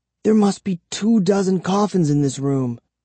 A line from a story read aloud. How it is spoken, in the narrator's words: I whispered to Kara